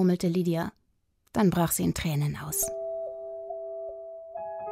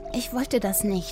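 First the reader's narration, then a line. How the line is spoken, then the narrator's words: Stammering. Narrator (German): stammelte sie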